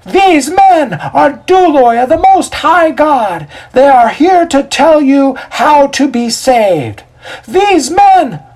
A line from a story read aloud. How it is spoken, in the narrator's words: At the top of her voice, Cora repeatedly yells out